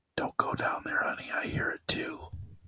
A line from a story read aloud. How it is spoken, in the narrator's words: you hear a whisper from the closet saying